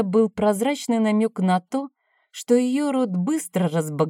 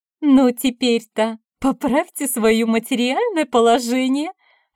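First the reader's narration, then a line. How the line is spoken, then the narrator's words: Mocking laughter. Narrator (Russian): рассмеялась она мне в лицо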